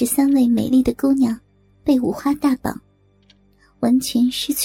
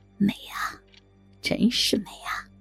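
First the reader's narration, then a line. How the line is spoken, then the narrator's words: Admiring murmur. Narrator (Chinese): 像是在鉴赏着一件艺术品，一边嘴里喃喃道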